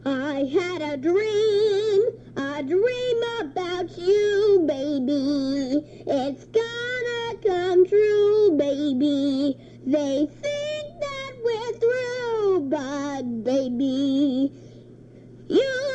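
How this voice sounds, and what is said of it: Sings imitating another person's voice. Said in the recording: “my impression of Ethel Merman”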